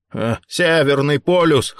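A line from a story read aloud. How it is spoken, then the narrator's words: Snorting. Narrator (Russian): хмыкнул Рэй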